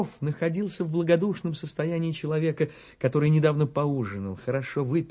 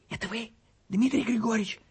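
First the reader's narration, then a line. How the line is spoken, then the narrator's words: Woman's whispered question. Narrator (Russian): спросил женский шепот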